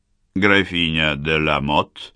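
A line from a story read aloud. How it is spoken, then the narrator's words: Slightly creaky voice. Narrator (Russian): поинтересовался он немного скрипучим голосом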